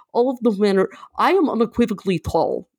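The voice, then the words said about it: Bad Russian accent impression. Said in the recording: “he has this really great voice ... doing the voice ... Bad Russian. Bad Russian.”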